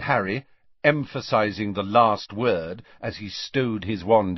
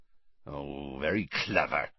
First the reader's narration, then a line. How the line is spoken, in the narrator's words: growled Hagrid